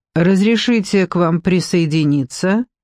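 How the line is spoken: Muffled flat voice. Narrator (Russian): сказала она глухо

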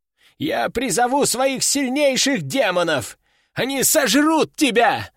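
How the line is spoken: Yelled. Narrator (Russian): заорал он

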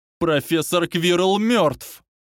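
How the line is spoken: Howling. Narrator (Russian): взвыл Гарри Поттер

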